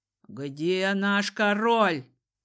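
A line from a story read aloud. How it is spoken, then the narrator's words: Menacing growl. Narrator (Russian): прорычал угрожающий могульский дипломат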